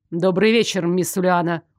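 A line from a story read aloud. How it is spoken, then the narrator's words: Cold, pointedly polite. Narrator (Russian): Холодно и с подчеркнутой вежливостью поздоровался Лоренс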